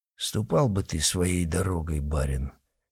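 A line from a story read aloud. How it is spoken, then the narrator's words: Quiet grumble. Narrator (Russian): Тихо заворчал один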